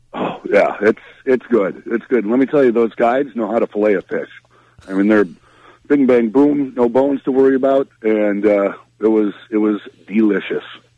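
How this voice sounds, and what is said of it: Minnesota accent. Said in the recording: “my Minnesota accent”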